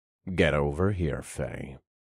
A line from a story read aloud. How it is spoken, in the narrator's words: I commanded in a low growl